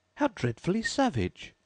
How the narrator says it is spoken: exclaimed Alice

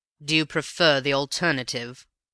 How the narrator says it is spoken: asked my companion with a sneer

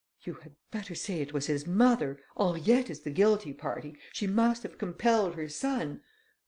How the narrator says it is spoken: the Countess exclaimed

